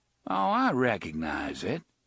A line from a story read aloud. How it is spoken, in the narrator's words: the drawling voice returned